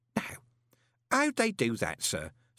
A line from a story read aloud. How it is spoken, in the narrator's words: said Groat in a kindly voice